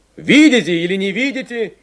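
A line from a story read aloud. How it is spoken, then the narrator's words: Shouting from a cab. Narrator (Russian): кричал Войтенко, высунувшись из кабины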